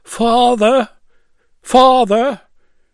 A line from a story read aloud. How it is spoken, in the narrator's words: he put his mouth to the lock hole and called out